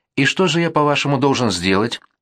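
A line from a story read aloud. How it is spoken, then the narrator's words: Sharp interruption. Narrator (Russian): резко перебил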